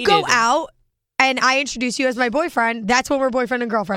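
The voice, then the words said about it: Hoarse, strained voice. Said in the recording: “Your laryngitis is flaring up. ... So shot.”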